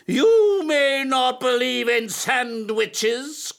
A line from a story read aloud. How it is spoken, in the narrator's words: cried his teacher